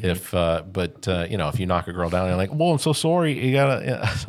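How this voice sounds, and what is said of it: Put-on Canadian accent. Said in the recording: “my best Canadian impression ... It was not bad either”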